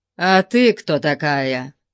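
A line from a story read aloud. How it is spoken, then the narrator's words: Rough barbarian reply. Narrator (Russian): грубо ответил варвар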